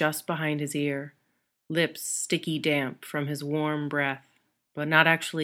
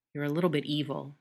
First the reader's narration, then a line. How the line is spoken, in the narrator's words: Styles murmurs against Derek's lips